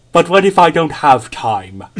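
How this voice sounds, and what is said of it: Imitates another person's voice. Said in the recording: “I'm gonna do a brief impression of ... Here's Rami Malek in Bohemian Rhapsody.”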